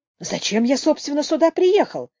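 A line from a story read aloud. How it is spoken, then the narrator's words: Exclamation. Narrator (Russian): воскликнул он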